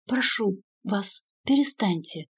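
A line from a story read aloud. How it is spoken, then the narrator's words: Nun's moan. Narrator (Russian): простонала монахиня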